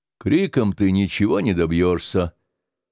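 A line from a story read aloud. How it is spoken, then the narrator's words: Calm warning. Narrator (Russian): спокойно предупредил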